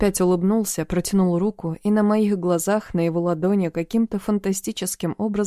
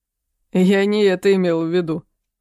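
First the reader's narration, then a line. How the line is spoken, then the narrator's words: Laughing. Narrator (Russian): засмеялся дядька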